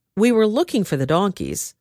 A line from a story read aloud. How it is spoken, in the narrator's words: Saul replied